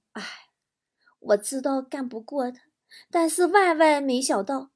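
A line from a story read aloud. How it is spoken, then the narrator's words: Sighing. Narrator (Chinese): 舅舅叹了口气说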